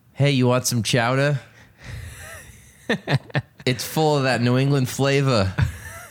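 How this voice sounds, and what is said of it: Put-on Boston accent. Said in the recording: “Do your best Boston accent.”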